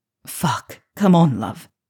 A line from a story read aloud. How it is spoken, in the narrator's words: Draco grunted from behind her, working hard to hold off his own release until she reached hers